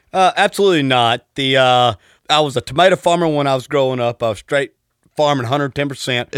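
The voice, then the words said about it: Strong Southern Texas accent. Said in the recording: “your accent, I fucking love it, man. It's like the most perfect Southern accent ... Texas”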